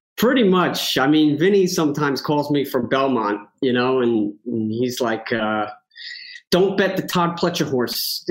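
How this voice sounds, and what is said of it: Thick New York accent. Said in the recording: “you can tell by the accent ... The thick New York accent is going to, you know, come on strong sometimes if you get me heated.”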